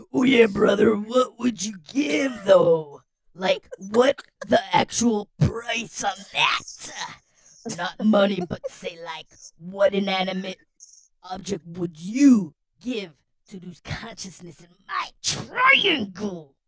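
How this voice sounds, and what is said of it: Imitates another person's voice. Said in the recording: “Question of Macho Man Randy Savage.”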